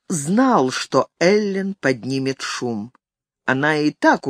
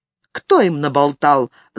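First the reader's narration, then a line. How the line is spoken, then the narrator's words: Angry question. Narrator (Russian): зло спросила Эллен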